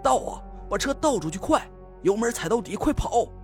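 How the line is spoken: Loud yell. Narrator (Chinese): 朝那个傻呆呆的司机大吼了一声

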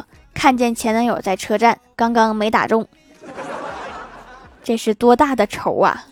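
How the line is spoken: With a slight smile. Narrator (Chinese): 怪兽兽微微一笑说

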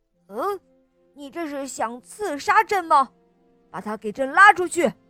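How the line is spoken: Shouting. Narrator (Chinese): 乾隆喊道

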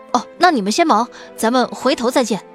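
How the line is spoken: Hasty reply. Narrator (Chinese): 司徒承恩急忙应了，说

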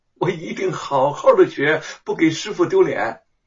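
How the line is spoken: Brightly smiling. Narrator (Chinese): 白雪燕这才灿然一笑

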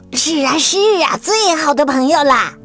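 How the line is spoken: Shouting. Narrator (Chinese): 他们一边喊

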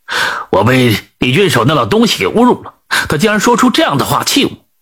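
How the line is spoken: Angry. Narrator (Chinese): 通判更加恼怒了，就说道

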